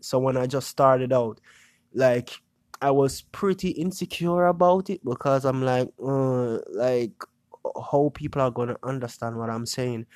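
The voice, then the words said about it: Creole-accented English. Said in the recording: “my dialect ... not everybody will understand me really good ... the Creole, you know, my accent. It makes words, sounds, you know, everything sounds a bit different”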